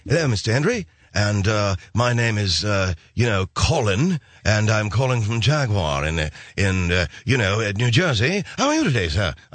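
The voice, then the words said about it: Put-on English accent. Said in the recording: “Do you really have to hire the guy with the English accent?”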